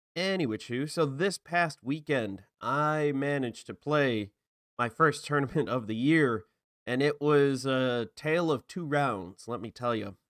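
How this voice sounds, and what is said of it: Slightly hoarse voice. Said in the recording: “my voice is a little hoarse ... you got a little, hoarse in your throat”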